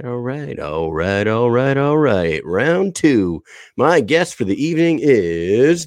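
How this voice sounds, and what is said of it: Professional radio announcer voice. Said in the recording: “that's my radio voice, everybody... that is my professional radio voice”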